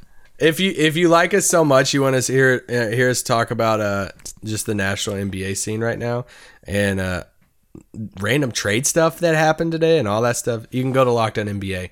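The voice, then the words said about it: Hoarse, worn-out voice. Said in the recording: “my voice is shot. I've been singing a lot of songs.”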